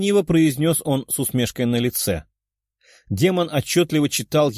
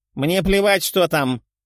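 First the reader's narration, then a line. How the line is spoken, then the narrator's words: Barked. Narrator (Russian): рявкнул он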